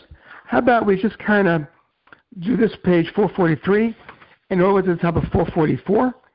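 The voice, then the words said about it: Strained, failing hoarse voice. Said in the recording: “my voice is going out ... It cannot possibly be pleasant to listen to.”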